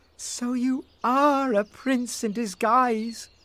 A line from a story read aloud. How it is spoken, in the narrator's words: cried Rose